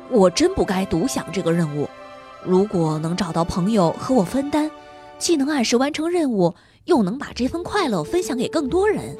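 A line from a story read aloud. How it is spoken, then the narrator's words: Regretful muttering. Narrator (Chinese): 托马斯有些后悔，他嘟囔道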